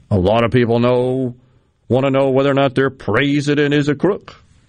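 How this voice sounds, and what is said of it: Western Pennsylvania Appalachian accent impression. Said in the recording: “he definitely had another accent that he affected... that's more of a Eastern Kentucky, West Virginia, Western Pennsylvania type accent”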